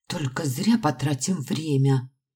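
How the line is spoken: Muttering under breath. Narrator (Russian): ворчала себе под нос Мари

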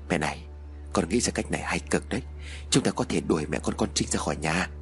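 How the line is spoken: Confiding murmur. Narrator (Vietnamese): Chú Tiến bây giờ mới thủ thỉ với mẹ

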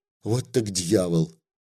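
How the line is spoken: Confused whisper. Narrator (Russian): В голове чехарда, он ничего не мог понять, только шептал

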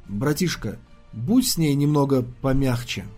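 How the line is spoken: Quiet awkward request. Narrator (Russian): проступила какая-то неловкость, когда он тихо попросил

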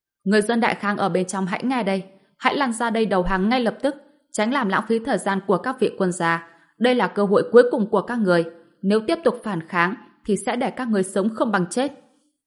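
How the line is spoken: Shouted in foreign tongue. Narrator (Vietnamese): một trong hai quan phiên dịch viên hét về phía bến tàu bằng tiếng đại khang

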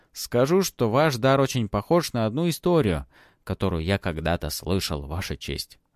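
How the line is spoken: Plain. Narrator (Russian): ответил Матвей

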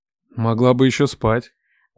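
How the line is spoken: Grumbling, mouth full. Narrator (Russian): бурчал Лев с набитым ртом

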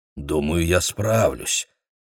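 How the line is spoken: Mutter. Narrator (Russian): пробормотал он

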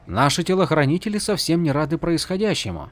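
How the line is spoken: Quiet remark. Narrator (Russian): негромко заметил Ринарин

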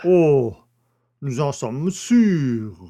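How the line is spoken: Exclaimed. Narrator (French): s'écria le juge d'instruction

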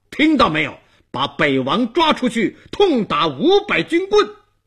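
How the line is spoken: Angry roar. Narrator (Chinese): 东王怒目圆睁，顿脚喝道

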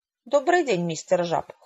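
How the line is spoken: Cold greeting. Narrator (Russian): холодно поздоровалась Хэвишем

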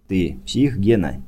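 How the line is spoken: Quiet question. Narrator (Russian): тихо спросил

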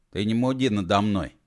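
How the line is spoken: Grumbled. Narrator (Russian): проворчал он

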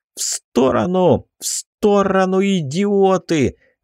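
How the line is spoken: Yelled. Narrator (Russian): заорал

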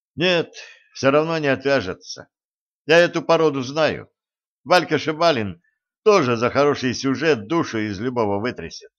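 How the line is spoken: Sigh. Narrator (Russian): вздохнул он

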